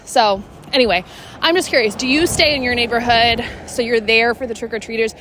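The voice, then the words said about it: Out of breath. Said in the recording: “can you tell I'm out of breath? ... this morning's workout”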